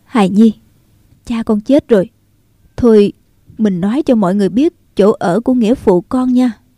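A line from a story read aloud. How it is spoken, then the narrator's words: Trembling woman speaking. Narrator (Vietnamese): Thân hình nàng run rẩy, nói tiếp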